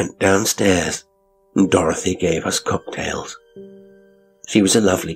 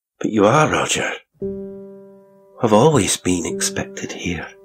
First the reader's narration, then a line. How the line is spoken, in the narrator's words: sighed, a deep, contented sort of sigh, said quite simply